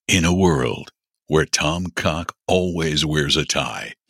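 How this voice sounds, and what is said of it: Dramatic movie-trailer announcer voice. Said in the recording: “Doing my trailer announcer voice. ... You did your trailer announcer.”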